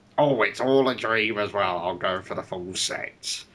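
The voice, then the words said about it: Imitates another person's voice. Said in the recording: “Does he sound like Alan Partridge? ... That's my impression of Tom.”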